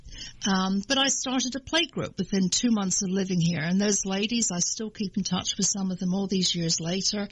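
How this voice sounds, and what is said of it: English accent. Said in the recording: “I have more of an English accent”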